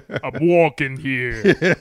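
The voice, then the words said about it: Imitated voice with Brooklyn accent. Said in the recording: “James Earl Jones doing a Brooklyn accent.”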